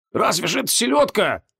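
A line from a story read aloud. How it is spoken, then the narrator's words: Male grumbling. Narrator (Russian): ворчал он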